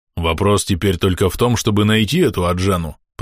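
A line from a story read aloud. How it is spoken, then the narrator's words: Grumbled. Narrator (Russian): пробурчал Троуг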